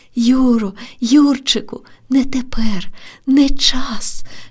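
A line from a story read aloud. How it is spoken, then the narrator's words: Whispering. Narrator (Ukrainian): шепотіла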